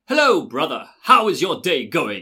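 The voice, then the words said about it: Put-on British accent. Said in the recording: “he speaks with a British accent”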